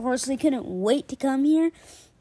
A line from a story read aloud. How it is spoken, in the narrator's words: Alexander whispered to Rip and Nikki